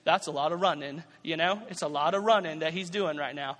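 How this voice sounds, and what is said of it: Forrest Gump impression. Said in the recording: “my best Forrest Gump impression”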